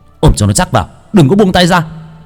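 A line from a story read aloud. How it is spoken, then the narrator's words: Shout. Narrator (Vietnamese): Bác cổ hét lên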